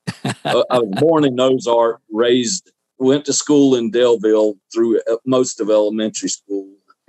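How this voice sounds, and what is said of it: Southern US accent, Alabama. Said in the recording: “Does my accent sound like I'm from Florida? ... Maybe Alabama. ... Alabama, Southeast Alabama”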